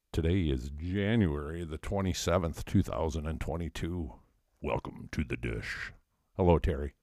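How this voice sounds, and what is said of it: Deep bass singer-style voice. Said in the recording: “Where did that deep voice? ... That's my Oak Ridge Boys, Elvira.”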